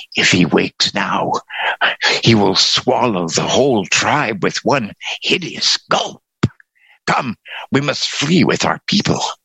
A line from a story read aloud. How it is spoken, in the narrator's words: he whispered